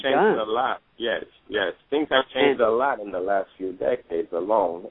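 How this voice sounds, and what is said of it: Haitian accent. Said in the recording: “you from another country? ... I was trying to place the accent. I couldn't figure out where it was.”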